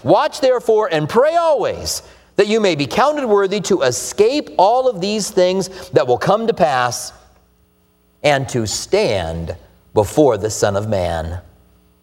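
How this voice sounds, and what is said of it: American accent. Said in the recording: “it is true I'm an American. My accent probably gave that away.”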